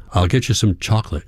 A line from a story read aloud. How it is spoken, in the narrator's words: says